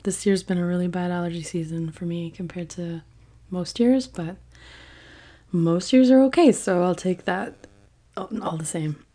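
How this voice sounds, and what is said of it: Raspy, hoarse voice. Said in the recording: “sorry for my voice, it's a little raspy ... a lot of birch pollen in the air”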